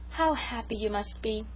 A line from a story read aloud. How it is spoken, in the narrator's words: sighed Sarah Ray romantically